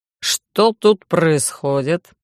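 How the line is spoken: Indignant deep voice. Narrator (Russian): Возмущенно пробасили, господина Бикса, начальника отдела безопасности

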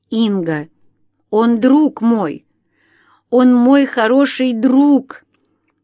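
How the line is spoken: Hysterical sobbing mumble. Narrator (Russian): Лариса истерично всхлипывала и бормотала

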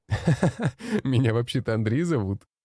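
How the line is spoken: Laughing. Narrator (Russian): рассмеялся я

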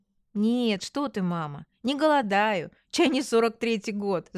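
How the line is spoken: Laughing. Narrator (Russian): засмеялась я

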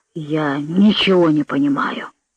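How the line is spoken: Confused muttering. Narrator (Russian): бормотал Титча, напрасно стараясь вспомнить

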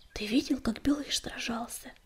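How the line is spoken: Whisper in ear. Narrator (Russian): шепнула песчаная буря на ухо Огнегриву

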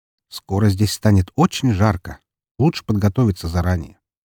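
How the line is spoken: Quiet. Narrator (Russian): тихо заявив

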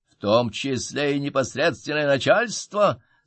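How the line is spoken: Shouting into ear. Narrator (Russian): заорал я ему в ухо

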